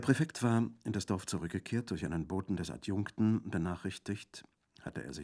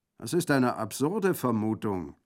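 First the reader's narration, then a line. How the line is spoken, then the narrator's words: Called out. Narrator (German): rief der Colonel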